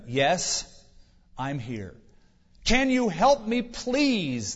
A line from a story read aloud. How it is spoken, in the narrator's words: the man cried